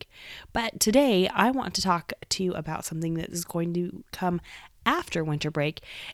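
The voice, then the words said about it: Voice slightly off, cold-affected. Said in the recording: “getting over colds ... my voice is a little bit different”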